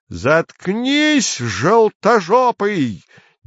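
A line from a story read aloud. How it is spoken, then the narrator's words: Wild sudden scream. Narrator (Russian): дико завопил вдруг Цвирик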